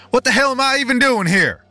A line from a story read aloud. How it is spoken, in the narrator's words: I shouted into the empty house